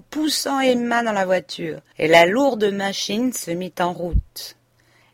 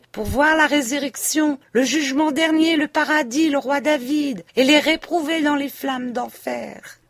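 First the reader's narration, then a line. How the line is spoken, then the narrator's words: Guard shouting. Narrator (French): leur cria le Suisse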